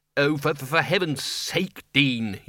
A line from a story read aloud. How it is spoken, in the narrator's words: he said